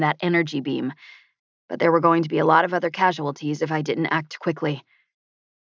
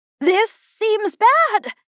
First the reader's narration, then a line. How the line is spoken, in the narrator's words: Juno said, his voice almost a squeak